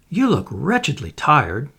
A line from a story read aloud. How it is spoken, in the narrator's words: she said kindly